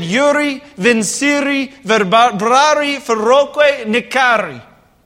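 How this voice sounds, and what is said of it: Put-on quinceañera MC accent. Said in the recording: “I just went with my quinceañera accent that I did for the Castanadas.”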